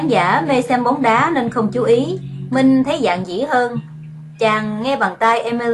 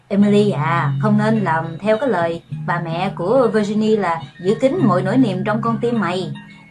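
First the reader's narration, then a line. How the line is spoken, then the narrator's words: Preachy, lecturing. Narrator (Vietnamese): Yvonne lên giọng thầy đời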